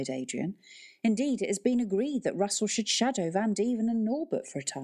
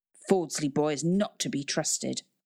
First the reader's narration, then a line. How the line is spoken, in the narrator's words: growled Van Deven